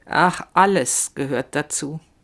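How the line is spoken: Slow. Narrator (German): sagt sie langsam

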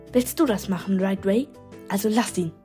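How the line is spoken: Hissing woman. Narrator (German): zischte die Dritte

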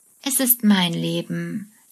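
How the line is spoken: Plain. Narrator (German): sagt Stuart

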